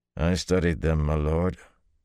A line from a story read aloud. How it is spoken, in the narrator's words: Tam said dryly